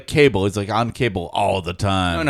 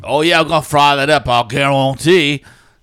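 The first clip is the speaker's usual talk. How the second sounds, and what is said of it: Thick Louisiana Cajun accent impression. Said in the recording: “The New Orleans guy in the 80s that did all the guarantee. This is thick Louisiana accent ... The cooking Cajun”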